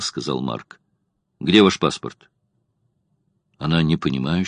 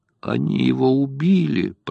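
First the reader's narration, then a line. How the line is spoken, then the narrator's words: Anguished moan. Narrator (Russian): простонала она, ломая руки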